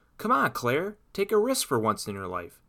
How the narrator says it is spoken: yelled Felipe from a high tree branch

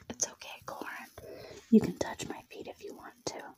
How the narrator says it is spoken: Jenna smiled at him and whispered

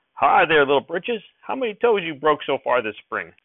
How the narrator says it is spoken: he yelled

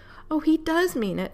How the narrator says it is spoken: cried

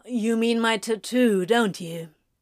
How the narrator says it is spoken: Crowley said with a groan

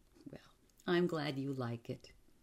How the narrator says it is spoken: he said again, and then he laughed

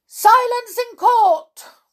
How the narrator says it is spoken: cried out

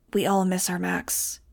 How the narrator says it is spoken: whispered against my hair

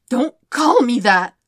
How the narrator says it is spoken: Zuko tries to snarl, but his voice cracks and the self-hatred multiplies

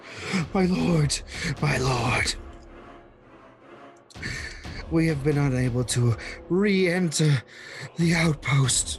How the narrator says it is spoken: Her voice now quavering with terror says

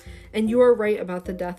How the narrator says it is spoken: he said

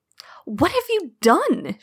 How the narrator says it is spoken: She gasps

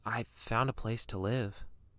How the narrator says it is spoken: Billy says quietly

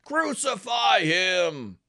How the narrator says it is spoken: They shouted back

